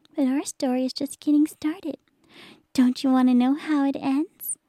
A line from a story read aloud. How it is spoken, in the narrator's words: she asked playfully